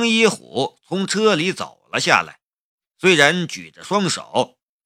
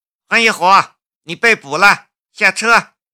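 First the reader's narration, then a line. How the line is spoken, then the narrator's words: Embarrassed, fierce shout. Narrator (Chinese): 江如意的神色顿时一窘…又凶巴巴的吼道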